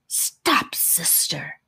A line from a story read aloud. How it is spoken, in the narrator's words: hissed the first snake